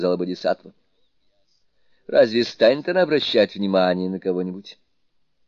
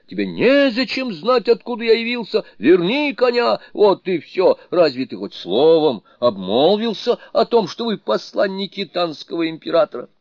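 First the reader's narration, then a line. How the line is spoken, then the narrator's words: Shouted. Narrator (Russian): ты в ответ закричал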